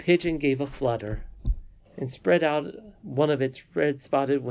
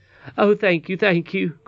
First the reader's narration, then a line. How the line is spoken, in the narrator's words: cried Curdie